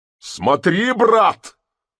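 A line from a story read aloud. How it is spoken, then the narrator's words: Pale, spiteful shout. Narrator (Russian): закричал Нехлюдов, бледнее и испытывая злобное чувство личности против мужика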